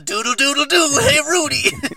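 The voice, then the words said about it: Imitates another person's voice. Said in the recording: “Do you think I think this is a good impersonation? Because it's not.”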